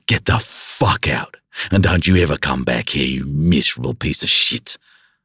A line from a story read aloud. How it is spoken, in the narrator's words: I roared